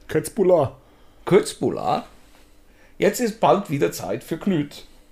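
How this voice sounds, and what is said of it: Put-on Swedish accent in German. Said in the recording (German): “Wie klingt ein Schwede, wenn er spricht? Wenn er Deutsch spricht? ... wie der schwedische Dialekt geht. So, so, so Ikea-like”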